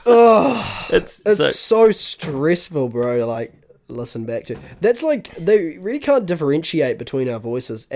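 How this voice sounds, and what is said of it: New Zealand accent, slurred speech. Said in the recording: “the Kiwi accent ... I mumble a wee bit ... I definitely slur ... We slur”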